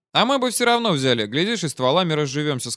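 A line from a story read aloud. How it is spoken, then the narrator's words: Plain. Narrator (Russian): сказал я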